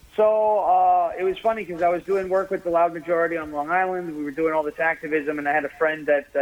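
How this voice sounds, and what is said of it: Usual voice. Nothing is said of it.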